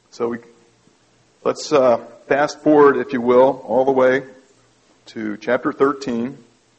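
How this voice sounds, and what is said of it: Southern Floridian drawl. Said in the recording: “my normal Floridian drawl”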